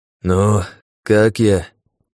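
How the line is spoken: Wheezing whistling voice. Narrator (Russian): спросил он свистящим голосом

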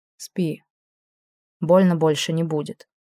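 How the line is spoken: Quiet, regretful. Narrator (Russian): тихо сказал, с удивлением понимая, что сожалеет о содеянном

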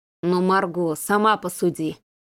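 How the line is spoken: Gloomy mumble. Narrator (Russian): уныло бормотал Сергей

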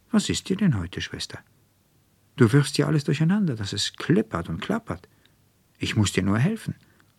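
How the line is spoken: Serious and calm. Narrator (German): Fränzchen stand ganz ernsthaft und ruhig von ihrem Stickrahmen auf und sagte

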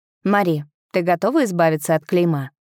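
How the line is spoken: Plain. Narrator (Russian): спросил Рейн

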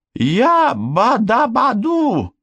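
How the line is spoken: Joyful exclamation. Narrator (Russian): радостно воскликнул Шестипалый

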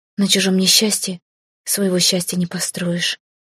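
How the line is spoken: Breathed out. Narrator (Russian): выдохнула я

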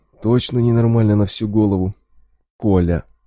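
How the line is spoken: Heavy sigh. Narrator (Russian): Болт тяжело вздохнул

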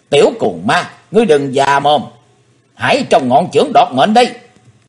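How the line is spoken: Woman's shrill shout. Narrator (Vietnamese): Hắc Phụng Hoàng nàng hét lên lanh lảnh

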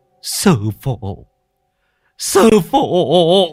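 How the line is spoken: Old man, tearful whimpering. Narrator (Vietnamese): Ông mếu máo

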